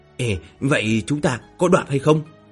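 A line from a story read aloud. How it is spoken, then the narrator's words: Quiet question. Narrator (Vietnamese): Lăng Duệ nhỏ giọng hỏi thăm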